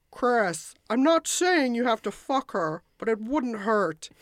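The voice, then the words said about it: Imitates another person's voice. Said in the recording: “I apologize for doing a terrible impression.”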